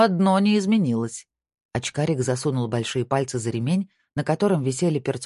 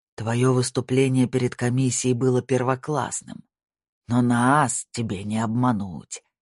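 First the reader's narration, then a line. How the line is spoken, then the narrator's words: Old man growling. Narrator (Russian): прорычал лысый старик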